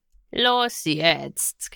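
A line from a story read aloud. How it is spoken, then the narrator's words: Whining. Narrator (German): jammerte Garn weiter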